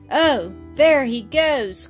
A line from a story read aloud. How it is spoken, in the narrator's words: cried Bobbie, much disappointed